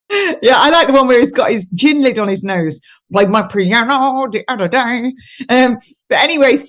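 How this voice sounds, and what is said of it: Usual voice. Nothing is said of it.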